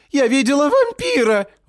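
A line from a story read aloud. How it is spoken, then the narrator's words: Shriek from above. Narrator (Russian): взвизгивают сверху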